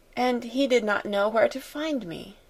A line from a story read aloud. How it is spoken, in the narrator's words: murmured Sarah